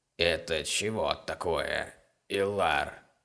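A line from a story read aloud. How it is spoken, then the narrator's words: Breathless, rasping old man. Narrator (Russian): Задыхаясь, спросил старик и потом добавил таким же скрежущим голосом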